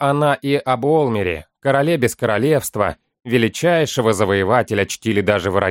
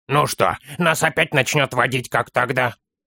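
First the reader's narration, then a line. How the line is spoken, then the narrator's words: Grumbling child. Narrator (Russian): проворчал малыш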